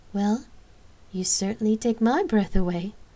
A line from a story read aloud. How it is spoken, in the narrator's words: Lark casually chuckled